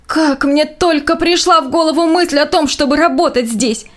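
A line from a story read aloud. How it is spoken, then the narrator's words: Groaning. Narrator (Russian): Застонал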